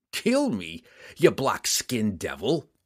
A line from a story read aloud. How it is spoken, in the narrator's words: he roared